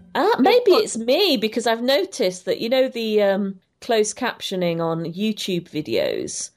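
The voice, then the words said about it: British Queen's English accent. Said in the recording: “My perfect, beautiful Queen's English accent.”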